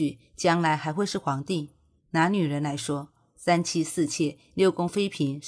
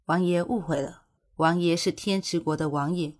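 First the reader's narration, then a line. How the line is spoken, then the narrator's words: Resigned sigh, explaining. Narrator (Chinese): 古欣欣无奈地叹了口气，解释道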